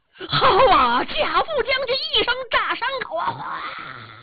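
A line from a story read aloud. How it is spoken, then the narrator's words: Shouting in unison. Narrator (Chinese): 汉兵齐声喊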